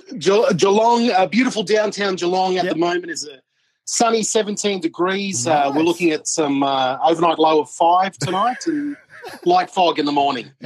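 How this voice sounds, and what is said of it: Radio DJ announcer voice. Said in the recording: “Got your DJ voice on.”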